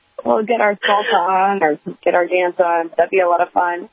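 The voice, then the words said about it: Hoarse, fading voice. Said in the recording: “I'm losing my voice a little bit here”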